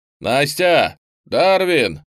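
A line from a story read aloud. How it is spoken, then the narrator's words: Shout. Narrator (Russian): крикнул Петров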